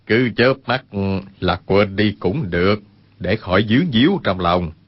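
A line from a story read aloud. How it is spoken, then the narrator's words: Smiling speech. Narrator (Vietnamese): Nhất Đăng mỉm cười nói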